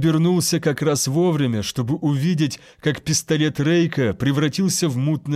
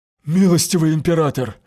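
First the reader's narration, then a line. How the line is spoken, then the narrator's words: Breathed out. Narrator (Russian): выдохнул врач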